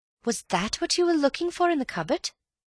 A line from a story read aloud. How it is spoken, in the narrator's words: said Bill eagerly